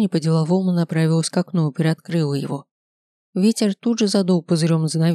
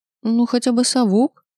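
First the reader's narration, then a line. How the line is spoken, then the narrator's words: Timid babble. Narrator (Russian): пролепетала она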